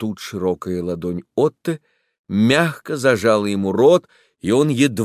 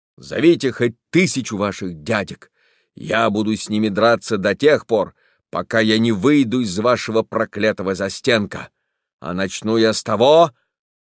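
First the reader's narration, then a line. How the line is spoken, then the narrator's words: Rough theatrical reply. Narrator (Russian): Он ответил грубо и невольно театрально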